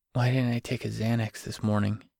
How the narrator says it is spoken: whispered to himself

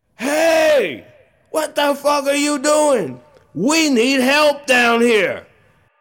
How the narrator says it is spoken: I yelled

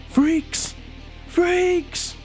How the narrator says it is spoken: he's going to yell out

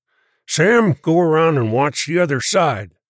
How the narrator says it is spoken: ordered sharply

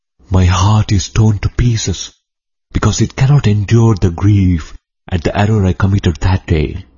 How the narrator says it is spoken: The Brahmin replied feebly

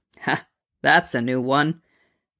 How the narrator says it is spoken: Bruce laughed

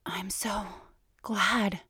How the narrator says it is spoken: she gasps

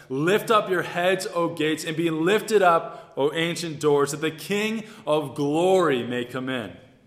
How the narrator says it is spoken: The procession shouts

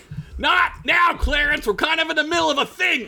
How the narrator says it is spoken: Ugla shouted

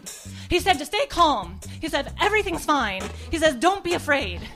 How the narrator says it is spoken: Antoinette in the same tone of voice shouted

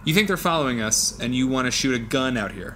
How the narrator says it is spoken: I said

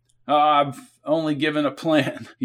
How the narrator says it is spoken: he said, laughing

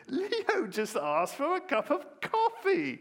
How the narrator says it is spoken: the owl lady screeches

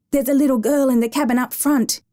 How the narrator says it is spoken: Kimber gasped

